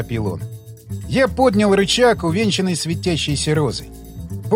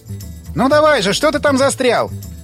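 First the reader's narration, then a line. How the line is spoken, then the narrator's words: Angry shout. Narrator (Russian): рассерженно крикнул он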